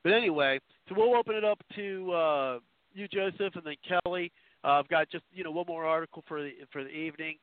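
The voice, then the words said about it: Hoarse, fading voice. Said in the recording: “Sorry if I seem to be losing my voice, but apparently I'm getting some – starting to – anyway, starting to get affected by it.”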